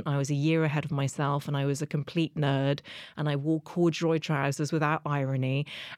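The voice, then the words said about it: English accent. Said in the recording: “as you can hear, I've always spoken with an English accent”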